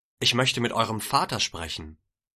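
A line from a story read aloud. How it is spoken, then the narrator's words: Plain. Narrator (German): sagte er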